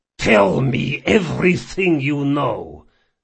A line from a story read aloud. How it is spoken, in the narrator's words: he growled